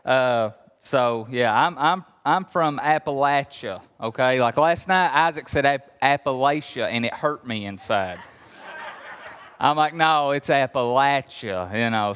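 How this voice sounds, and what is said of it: Kentucky Appalachian accent. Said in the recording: “he's from Kentucky, but I'm really from Kentucky. You hear the accent? I'm really from Kentucky”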